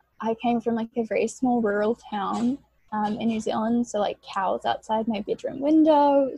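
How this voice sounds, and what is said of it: New Zealand accent. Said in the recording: “as you can probably tell from my accent, I am from New Zealand.”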